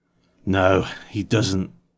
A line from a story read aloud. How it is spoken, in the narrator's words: I said roughly, my voice crackling like dry wood